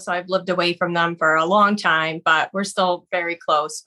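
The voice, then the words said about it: Boston accent. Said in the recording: “It's a Boston accent, right? ... I do notice your accent.”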